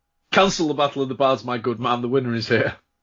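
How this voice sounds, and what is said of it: Character voice with put-on accent. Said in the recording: “I really like this guy's accent.”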